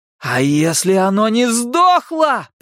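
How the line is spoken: Shouted reply. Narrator (Russian): прокричал в ответ Билл

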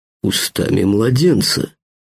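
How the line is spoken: Approving snort. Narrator (Russian): хмыкнул Вадим одобрительно

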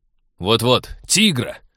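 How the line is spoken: Angry. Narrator (Russian): сердито подхватил Станислав

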